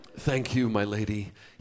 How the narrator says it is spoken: he murmurs, dazed, overcome

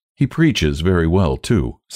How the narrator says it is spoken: said Sarah kindly

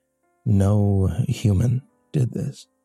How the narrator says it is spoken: the inspector said quietly

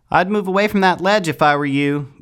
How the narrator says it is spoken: yelled Wren, still out of view

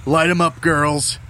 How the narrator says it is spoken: Gunny hollered

